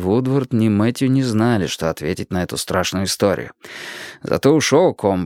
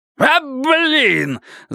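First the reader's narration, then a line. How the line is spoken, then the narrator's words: Pained yell. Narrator (Russian): завопил он, лицо его исказилось от боли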